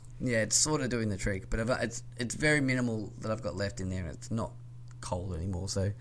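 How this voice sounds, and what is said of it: Dry, raspy voice. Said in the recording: “I'm really dry at the moment because I didn't grab a drink before we started recording this ... I'm like getting real raspy.”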